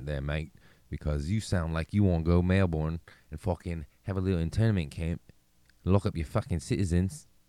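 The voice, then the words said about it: Bad put-on Australian accent. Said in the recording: “that was a horrible Australian accent”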